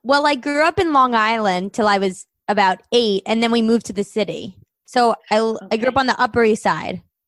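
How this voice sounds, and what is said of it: New York accent. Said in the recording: “I love your accent. Are you from New York City?”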